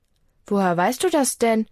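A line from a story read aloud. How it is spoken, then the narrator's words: Plain. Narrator (German): fragt sie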